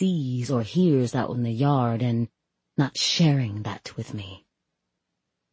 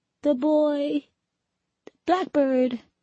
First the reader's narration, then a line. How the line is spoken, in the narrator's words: she sobs